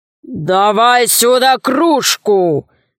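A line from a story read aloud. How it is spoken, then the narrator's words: Ogre's growl. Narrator (Russian): зарычал людоед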